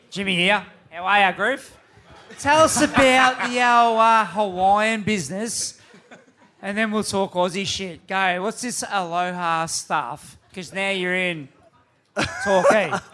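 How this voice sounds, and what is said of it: Thick broad Australian accent. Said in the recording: “Do we need a translator for that? ... Some thick bogan patois, that's what it was.”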